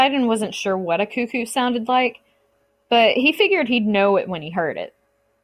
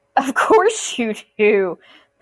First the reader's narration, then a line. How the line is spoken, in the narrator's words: Poseidon muttered